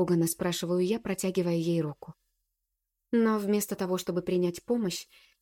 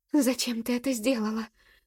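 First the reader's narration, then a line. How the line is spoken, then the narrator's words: Trembling whisper. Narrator (Russian): Дрожащим голосом шепчет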